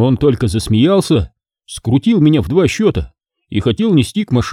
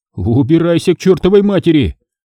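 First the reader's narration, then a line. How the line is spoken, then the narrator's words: Yelling. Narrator (Russian): заорал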